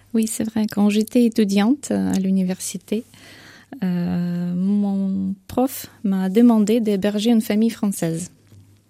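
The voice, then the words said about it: Slight Ukrainian accent in French. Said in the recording (French): “on a juste ce petit accent qui vous donne le charme de l'Ukraine”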